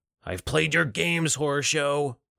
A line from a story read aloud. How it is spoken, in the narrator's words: Alec yelled